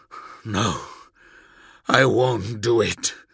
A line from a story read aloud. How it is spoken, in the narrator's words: gasped, breathing hard